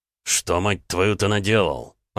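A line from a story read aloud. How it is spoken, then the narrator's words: Through gritted teeth, then coughing. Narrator (Russian): процедил Ромка и тут же закашлялся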